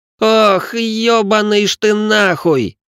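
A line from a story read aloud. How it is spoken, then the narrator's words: Young noble's shocked shriek. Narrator (Russian): Взвизгнул графёныш, поняв, что именно делает Рэй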